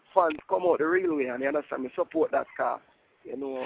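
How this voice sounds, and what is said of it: Deep Jamaican accent. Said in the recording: “You heard that deep accent, man. You know that was straight from Jamaica. That's the straight Jamaican rawness right there.”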